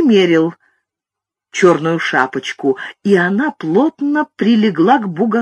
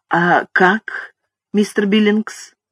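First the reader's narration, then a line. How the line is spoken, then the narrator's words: Soft question. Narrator (Russian): мягко спросил Зигфрид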